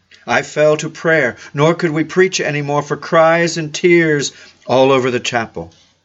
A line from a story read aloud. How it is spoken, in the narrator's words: a man cried out